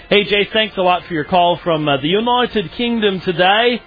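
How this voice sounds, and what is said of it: Put-on British accent. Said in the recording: “I had people in the channel asking me to do a British accent, and so I'm doing my best.”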